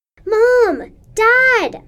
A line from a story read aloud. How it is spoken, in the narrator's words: screamed